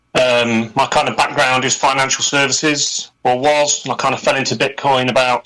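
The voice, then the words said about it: Strong accent, hard to understand. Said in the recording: “You're hard to understand with your accent.”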